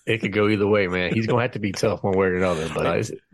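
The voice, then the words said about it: New Jersey-sounding accent. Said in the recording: “I know I sound like I'm from Jersey ... You threw me with the accent.”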